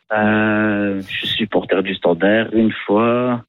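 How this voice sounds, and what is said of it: Put-on Belgian accent. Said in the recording (French): “je suis pas très bon. Je peux essayer de vous faire un accent belge.”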